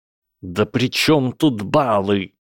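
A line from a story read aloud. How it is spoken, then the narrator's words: Through gritted teeth. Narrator (Russian): процедил Гарри сквозь сжатые зубы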